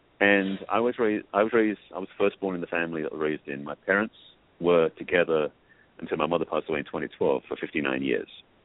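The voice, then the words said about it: English accent. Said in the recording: “I grew up in England, that's where I'm from, hence the accent.”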